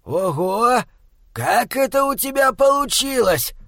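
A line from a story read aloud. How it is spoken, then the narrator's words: Surprised exhale. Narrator (Russian): Выдохнул он удивленно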